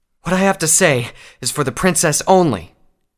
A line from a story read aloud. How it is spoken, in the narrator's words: Sungazer said vehemently, between pants